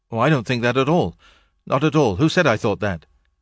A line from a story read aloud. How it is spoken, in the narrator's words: answered Stone very quickly